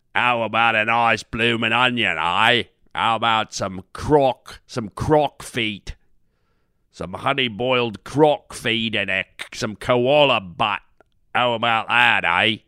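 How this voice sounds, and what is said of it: Exaggerated put-on Australian accent. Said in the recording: “now that's Australian ... they overdo the accent so much”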